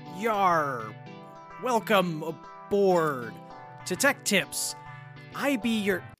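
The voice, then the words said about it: Pirate voice. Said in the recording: “talk like a pirate”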